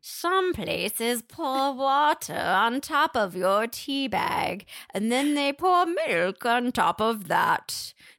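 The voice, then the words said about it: Bad put-on British accent, witchy. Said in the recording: “I have a terrible British accent ... Every time I try to do a British accent, I sound like a witch over a boiling cauldron ... say it as though you're a witch over a boiling cauldron”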